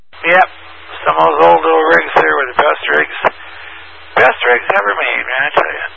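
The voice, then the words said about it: Strained voice, nearly losing it. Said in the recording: “something to drink for my throat. Oh, I'm going to lose my voice.”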